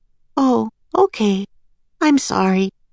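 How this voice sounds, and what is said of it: Small, quiet voice. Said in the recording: “in a small voice.”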